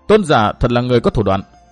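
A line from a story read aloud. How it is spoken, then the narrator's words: Cold reply. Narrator (Vietnamese): Chàng lạnh lùng đáp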